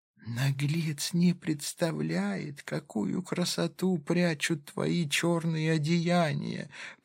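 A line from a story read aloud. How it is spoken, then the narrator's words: Whispered. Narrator (Russian): произнесла шепотом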